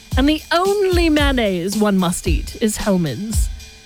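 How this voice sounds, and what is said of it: Put-on English accent. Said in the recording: “I'm affecting that English accent.”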